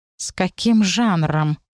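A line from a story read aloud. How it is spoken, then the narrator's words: Purring. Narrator (Russian): мурлыкнул Сигизмунд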